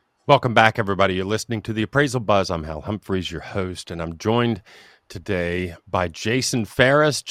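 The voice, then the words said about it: Smooth radio voice. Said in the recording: “radio voice ... that smooth radio voice”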